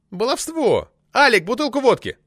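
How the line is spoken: Yelling. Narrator (Russian): заорал Крыков

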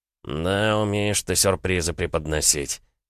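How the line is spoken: Snorted. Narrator (Russian): хмыкнул Алексей

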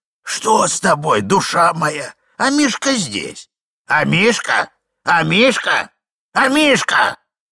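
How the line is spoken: Old man shouting, lip-smacking. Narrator (Russian): кричал старичок, щелкая пальцами, причмокивая

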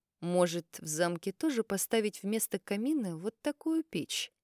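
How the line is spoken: Thoughtful, drawn out. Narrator (Russian): Задумчиво протянул он

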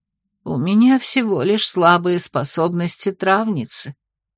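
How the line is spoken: Sighing explanation. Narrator (Russian): вздохнув, пояснила Хельга

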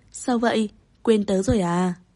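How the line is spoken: Smiling, friendly. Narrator (Vietnamese): Tiêu Úc Tĩnh mỉm cười nói

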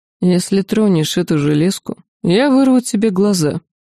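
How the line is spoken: Calm threat. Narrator (Russian): спокойно пообещал Ланс

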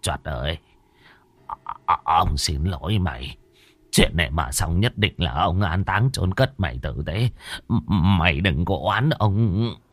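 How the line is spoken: Muttering. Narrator (Vietnamese): Bá Khôi lầm bầm

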